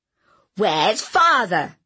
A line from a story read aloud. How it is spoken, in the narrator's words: shouted